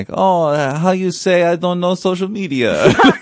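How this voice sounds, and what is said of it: Put-on fake French accent. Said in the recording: “play up the adorable accent ... It reminds me of like a pretend French person from a movie.”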